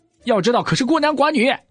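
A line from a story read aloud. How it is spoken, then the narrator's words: Irritated shout from outside. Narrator (Chinese): 谢寒韵在外面没好气的喊道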